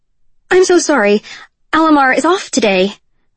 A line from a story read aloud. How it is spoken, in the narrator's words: Kyra stammered